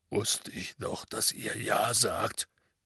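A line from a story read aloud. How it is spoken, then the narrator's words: Mumbling into handkerchief. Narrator (German): nuschelte Hagrid in sein Taschentuch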